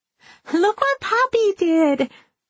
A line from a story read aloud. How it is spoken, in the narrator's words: her daughter squeals